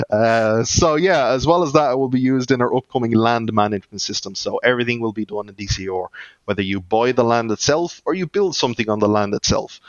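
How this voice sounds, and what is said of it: Irish accent. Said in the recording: “I've been told I don't pronounce my ORs correctly or my R's correctly ... that's my Irish accent coming through”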